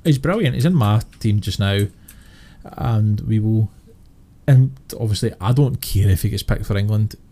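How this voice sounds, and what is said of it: Noticeable regional accent. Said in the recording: “Anyone who's listening to this podcast can hear mine and yours accent.”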